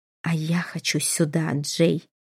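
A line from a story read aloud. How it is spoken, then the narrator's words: Muffled growl. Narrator (Russian): Престон глухо прорычав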